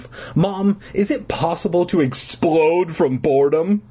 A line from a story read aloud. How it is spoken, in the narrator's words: I moaned